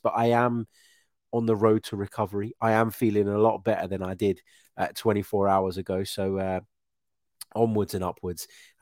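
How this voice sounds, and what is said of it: Congested, blocked-up nasal voice. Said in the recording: “I was feeling really under the weather... Still a little bit blocked up, still a little bit bunged up. You can probably tell by my voice”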